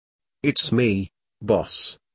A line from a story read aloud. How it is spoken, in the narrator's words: Carson said quietly